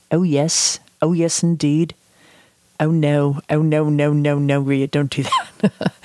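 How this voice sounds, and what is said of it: Put-on English accent. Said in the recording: “But I could do an English accent.”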